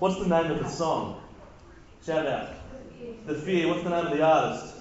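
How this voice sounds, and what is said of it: Usual voice. Nothing is said of it.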